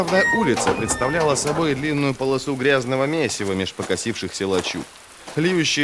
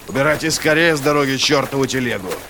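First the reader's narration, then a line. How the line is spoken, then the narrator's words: Barked order. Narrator (Russian): рявкнул практик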